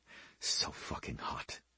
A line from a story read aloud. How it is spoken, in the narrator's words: he whispered